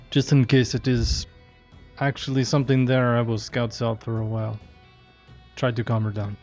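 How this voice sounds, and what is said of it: Character voice with an accent. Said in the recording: “Ooh, I like his accent.”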